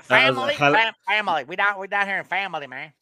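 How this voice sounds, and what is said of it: Fake Southern accent. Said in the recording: “his fake Southern accent”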